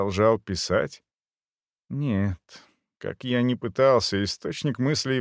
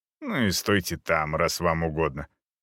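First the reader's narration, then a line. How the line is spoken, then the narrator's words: Irritated mutter. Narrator (Russian): раздраженно буркнув себе под нос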